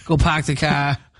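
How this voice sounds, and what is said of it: Put-on Boston accent. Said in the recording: “I love a Boston accent, though.”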